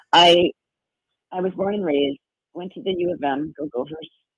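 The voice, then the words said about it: Raspy voice. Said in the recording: “my voice is raspy”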